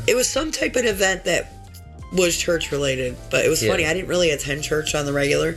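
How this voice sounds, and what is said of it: Hoarse, strained, fading voice. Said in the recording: “You really are losing your voice, I think. ... I'm so tired. My voice. My voice is almost gone. ... It just sounds bad right now ... it's just from being sick. It's coughing. It's all the coughing.”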